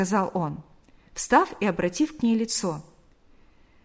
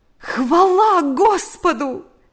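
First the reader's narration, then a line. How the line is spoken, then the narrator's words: Exclaimed. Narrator (Russian): воскликнула она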